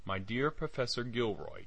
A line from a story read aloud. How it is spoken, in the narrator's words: it said